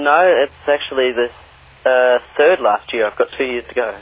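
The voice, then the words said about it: Australian accent. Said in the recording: “you're obviously based in Australia. I'm sure most people will have picked that accent.”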